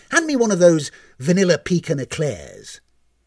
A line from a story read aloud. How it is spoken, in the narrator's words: he barked